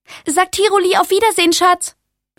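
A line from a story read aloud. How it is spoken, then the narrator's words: Shouting over shoulder. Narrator (German): schrie über ihre Schulter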